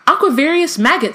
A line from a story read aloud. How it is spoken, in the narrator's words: said Luna excitedly